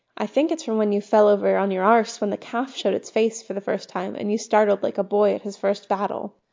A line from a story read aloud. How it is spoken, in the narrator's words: Marcus said